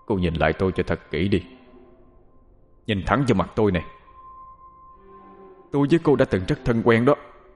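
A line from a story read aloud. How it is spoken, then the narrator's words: Menacing, gritted voice. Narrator (Vietnamese): gằn giọng nói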